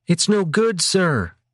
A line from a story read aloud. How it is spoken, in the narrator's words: Krogan shouted into the captain's ear